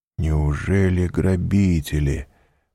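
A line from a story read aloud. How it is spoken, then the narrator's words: Mutter. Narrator (Russian): пробормотал он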